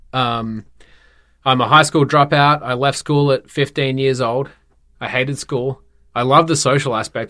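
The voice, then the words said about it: Australian accent. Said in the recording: “you can probably hear I've got a bit of an accent ... Born and raised in Perth, Western Australia”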